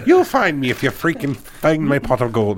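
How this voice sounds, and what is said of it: Leprechaun voice, Scottish-sounding. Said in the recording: “that was not the Riddler at all. ... That was a leprechaun, man. ... That was more Scottish.”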